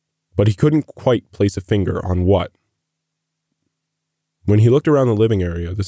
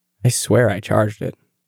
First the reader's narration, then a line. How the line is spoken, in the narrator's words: mumbled